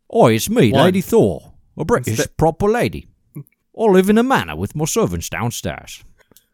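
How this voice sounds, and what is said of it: Put-on upper-class British accent. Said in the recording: “The excellent upper class British accent you just did. ... That definitely isn't just Dick Van Dyke from Mary Poppins.”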